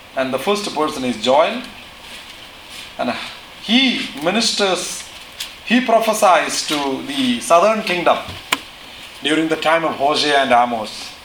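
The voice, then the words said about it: Speaks with a noticeable foreign accent. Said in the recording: “I presume that you understand my accent. Maybe you are used to that.”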